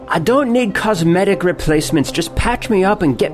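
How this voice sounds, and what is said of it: Put-on Irish accent. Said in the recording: “why am I doing it in this like an Irish accent?”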